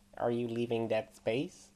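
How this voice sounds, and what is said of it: Nasal American accent. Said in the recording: “a rather nasal American accent.”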